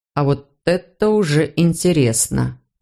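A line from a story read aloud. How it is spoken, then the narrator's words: Drawling. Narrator (Russian): протянул тот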